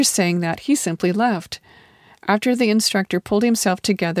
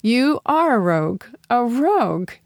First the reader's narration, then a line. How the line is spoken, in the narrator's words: said, laughing